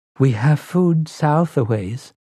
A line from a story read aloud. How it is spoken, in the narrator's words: said timidly